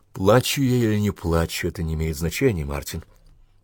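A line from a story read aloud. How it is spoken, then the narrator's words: Gentle reply. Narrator (Russian): мягко ответила она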